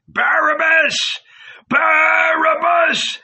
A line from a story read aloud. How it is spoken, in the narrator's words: howled the people